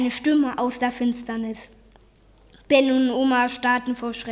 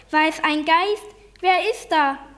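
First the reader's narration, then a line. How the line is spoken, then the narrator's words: Called out. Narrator (German): rief Ben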